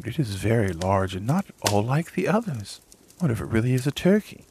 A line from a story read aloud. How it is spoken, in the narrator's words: The duck stared at it and exclaimed